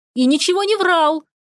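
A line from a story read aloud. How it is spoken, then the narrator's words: Girlish squeal. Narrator (Russian): По-девичьи взвизгнул вышеупомянутый Дирк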